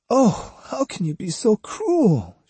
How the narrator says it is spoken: she whimpered

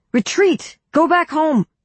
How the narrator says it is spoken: someone in Israel's army shouted to the others

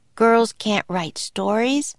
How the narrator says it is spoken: grumbled Annie

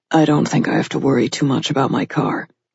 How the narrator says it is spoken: he said in a low voice

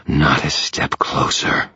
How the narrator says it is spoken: the nightmare snarled

